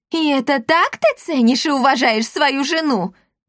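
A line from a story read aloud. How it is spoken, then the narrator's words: Screaming. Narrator (Russian): завопила Эсмеральда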